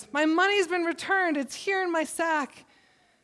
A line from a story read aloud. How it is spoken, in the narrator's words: he exclaimed to his brothers